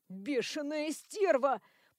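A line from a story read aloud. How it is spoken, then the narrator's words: Wheezing, gasping for air. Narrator (Russian): прохрипел он, хватая ртом воздух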